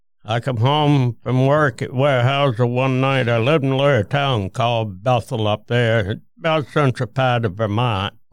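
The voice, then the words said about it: Thick Vermont accent. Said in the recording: “you do have a thick accent from Vermont”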